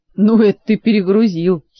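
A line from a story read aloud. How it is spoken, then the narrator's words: Giggling, more cheerful. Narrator (Russian): хихикнул Жак уже веселее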